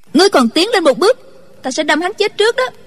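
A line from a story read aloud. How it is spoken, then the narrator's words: Shouted. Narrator (Vietnamese): Chu Chỉ Nhược quát lên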